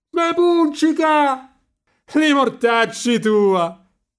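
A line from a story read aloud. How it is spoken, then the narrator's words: Laughing shout. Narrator (Italian): gridò ridendo Marcello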